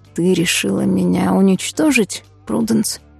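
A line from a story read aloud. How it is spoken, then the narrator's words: Whisper. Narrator (Russian): прошептал он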